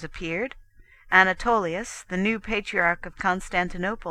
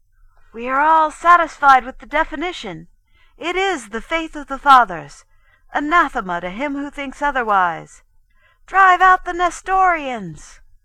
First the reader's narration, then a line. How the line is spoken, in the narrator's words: The bishops cried out